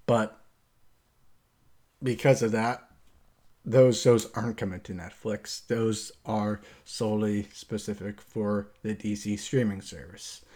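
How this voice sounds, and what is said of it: American accent. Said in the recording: “the United States, which is where I'm at, if you didn't get that already, based off my accent”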